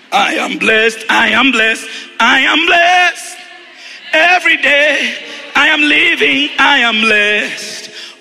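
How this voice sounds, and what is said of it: Strained, failing singing voice. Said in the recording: “Oh, my voice is gone.”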